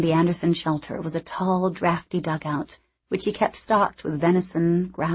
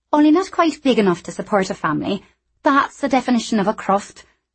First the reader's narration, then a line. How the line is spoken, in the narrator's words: she said indignantly